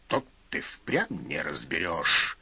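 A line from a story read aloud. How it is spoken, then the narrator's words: Displeased grumbling. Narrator (Russian): недовольно пробурчал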